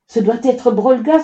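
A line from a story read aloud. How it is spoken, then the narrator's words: Group exclaiming. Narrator (French): s'exclamèrent-ils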